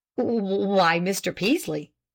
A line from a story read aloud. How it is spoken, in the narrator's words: stammered at last